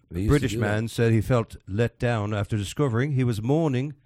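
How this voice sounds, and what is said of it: Put-on British accent. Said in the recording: “Do the accent again. Do the whole story in that accent.”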